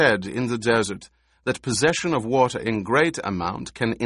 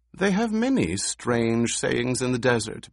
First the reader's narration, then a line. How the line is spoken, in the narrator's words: Bute said, but his voice betrayed uneasiness